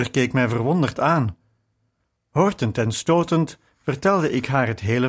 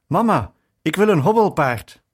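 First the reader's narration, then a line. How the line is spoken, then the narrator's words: Breathless call. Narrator (Dutch): riep buiten adem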